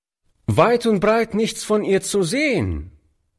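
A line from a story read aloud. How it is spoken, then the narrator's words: Boy calling out. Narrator (German): rief der Junge dem alten Mann zu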